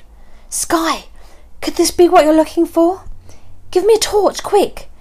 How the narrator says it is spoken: said, my voice shaking

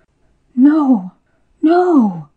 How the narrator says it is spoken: cried the woman

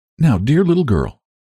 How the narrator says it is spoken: said Sarah, and her voice trembled

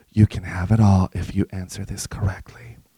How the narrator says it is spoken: whispered

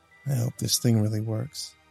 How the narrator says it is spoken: Kelton muttered

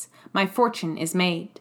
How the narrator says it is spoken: He answered in a low, curt voice

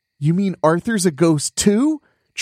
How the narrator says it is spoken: Chunker cried in disbelief

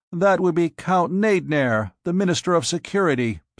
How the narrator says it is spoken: somebody said

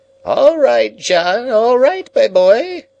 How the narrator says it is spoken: piped the old man from within

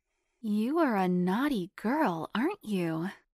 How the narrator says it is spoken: Liz cooed back

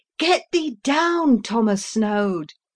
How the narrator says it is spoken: again I cried

